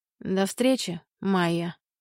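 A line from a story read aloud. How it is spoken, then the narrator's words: Calm. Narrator (Russian): Камиль спокойно говорит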